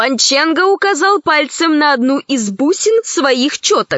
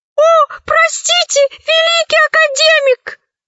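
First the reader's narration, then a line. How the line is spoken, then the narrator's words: Exclaiming. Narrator (Russian): воскликнул сирианец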